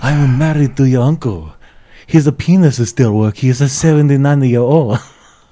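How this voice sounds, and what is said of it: Put-on Asian accent. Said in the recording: “I do exactly one Asian accent.”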